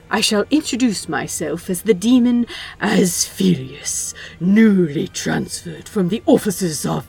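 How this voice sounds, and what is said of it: Ridiculous put-on demon voice. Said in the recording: “Don't talk in that voice. It's ridiculous. ... It's my demon voice. ... I modeled it after Haster. ... Like I said, it's ridiculous.”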